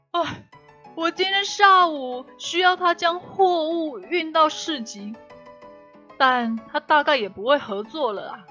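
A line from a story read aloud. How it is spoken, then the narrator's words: Shouting. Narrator (Chinese): 康妮喊道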